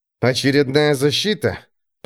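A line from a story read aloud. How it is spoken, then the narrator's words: Breathless, through gritted teeth. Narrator (Russian): процедил сквозь зубы, пытаясь восстановить дыхание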